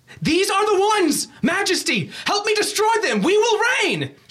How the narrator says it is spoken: visibly shaking as he's yelling, as he's spitting this out

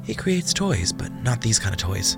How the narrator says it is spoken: the one girl whispered

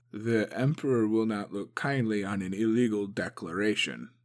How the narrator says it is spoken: Motsu mumbled

